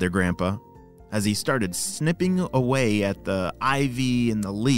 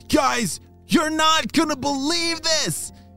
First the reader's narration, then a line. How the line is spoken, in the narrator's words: shouted Arlo